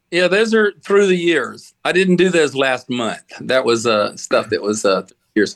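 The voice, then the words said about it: Modern Southern US accent. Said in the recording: “can you understand my Southern accent okay? ... I have the Southern accent that is not quite the old Southern accent”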